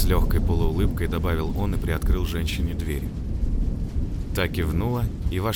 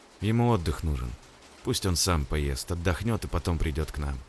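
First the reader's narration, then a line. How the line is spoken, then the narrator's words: Tired voice. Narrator (Russian): устало проговорил охранник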